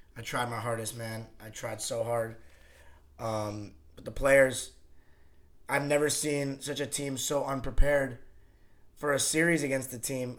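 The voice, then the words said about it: Slightly raspy voice. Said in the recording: “my voice, as you can probably already tell, is a little raspy.”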